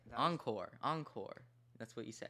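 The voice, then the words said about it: Southern American accent. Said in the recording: “You're Southern. You're sounding Southern now.”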